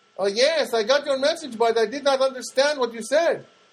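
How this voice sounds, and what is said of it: Thick Colombian accent. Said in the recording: “she's got that very thick Colombian accent.”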